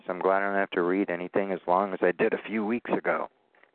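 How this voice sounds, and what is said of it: Strained voice, nearly losing it. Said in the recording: “I almost feel like I'm losing my voice.”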